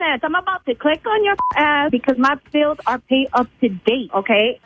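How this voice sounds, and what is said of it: Puerto Rican accent. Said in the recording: “you have an accent ... because I'm f***ing Puerto Rican”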